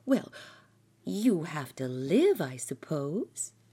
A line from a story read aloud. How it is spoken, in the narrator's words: replied Martha Pym cheerfully